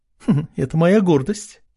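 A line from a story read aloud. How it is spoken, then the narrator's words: Proud giggle. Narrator (Russian): хихикнула та, гордо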